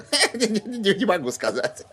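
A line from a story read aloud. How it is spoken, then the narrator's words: Laughing while speaking. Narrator (Russian): сквозь смех ответил Кадберт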